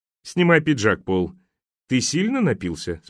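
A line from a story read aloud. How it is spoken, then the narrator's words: Plain. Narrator (Russian): спросил Джеб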